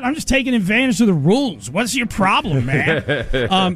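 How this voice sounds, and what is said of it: Impression of Patrick Mahomes. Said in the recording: “Mahomes ... he's never said that. That's celebrity impersonation.”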